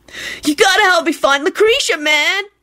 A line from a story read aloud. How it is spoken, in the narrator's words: Kenny whined